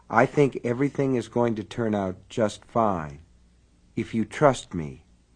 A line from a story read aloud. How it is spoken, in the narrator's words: he said softly